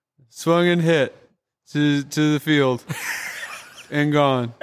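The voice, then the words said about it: Impression of Tom Hamilton's call. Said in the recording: “he did do a Tom Hamilton impression ... do you think you could do an impression of that impression?”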